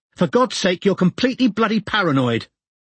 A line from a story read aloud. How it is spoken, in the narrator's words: Robin had shouted